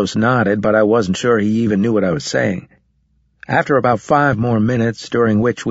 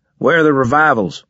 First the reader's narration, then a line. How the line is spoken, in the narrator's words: he shouted at me